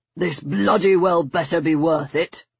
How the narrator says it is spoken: he rasped

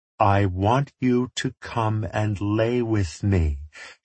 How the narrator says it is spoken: she said slowly, enunciating like she was talking to someone who might not have a complete grasp of his faculties

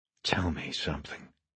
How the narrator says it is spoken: he whispered to no one

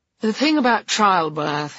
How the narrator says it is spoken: he slurred in a confidential tone

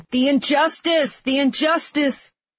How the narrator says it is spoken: screaming

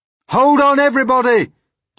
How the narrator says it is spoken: James called out

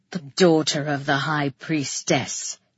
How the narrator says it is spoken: he grunted

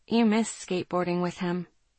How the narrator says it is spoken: I said softly

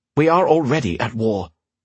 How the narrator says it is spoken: Fire snapped

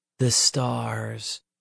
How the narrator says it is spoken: Peter answered in a low, reverent tone

